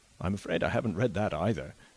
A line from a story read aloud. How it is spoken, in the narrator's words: was the young man's rejoinder, laughing a little and blushing